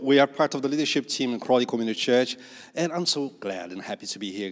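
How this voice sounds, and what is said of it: Brazilian accent. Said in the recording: “as you can see my accent. I know Brazil, the most beautiful accent”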